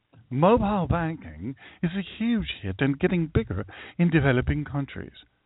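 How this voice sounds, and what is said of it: Switches to a put-on accent. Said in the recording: “if I say it in a different accent”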